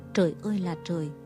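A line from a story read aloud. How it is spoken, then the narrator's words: Exhausted muttering. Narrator (Vietnamese): Y nằm vật trong xe như người kiệt sức, miệng lẩm bẩm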